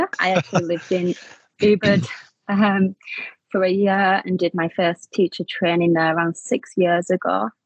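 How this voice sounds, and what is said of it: Slight Manchester English accent. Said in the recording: “there's a little bit of an accent ... I'm originally from just outside of Manchester in the UK”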